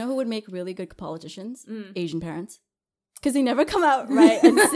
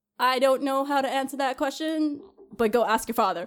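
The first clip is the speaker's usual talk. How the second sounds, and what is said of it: Imitates another person's voice. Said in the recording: “I would do like George Bush, but like my mom ... Put them two together”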